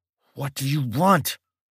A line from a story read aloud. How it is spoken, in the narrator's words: Mike spoke through clenched teeth